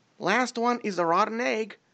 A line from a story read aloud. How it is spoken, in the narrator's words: With a spark of pure childish glee, Alien shouted